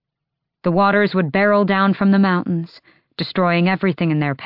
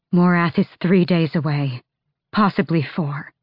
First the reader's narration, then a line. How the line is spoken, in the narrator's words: she said breathlessly